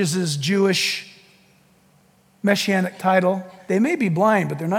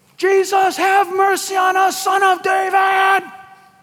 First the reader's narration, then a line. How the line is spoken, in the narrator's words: they're just yelling all the more